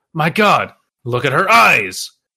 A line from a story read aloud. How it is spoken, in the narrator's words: a man yelled